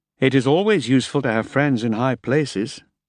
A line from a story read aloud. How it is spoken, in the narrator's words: said dryly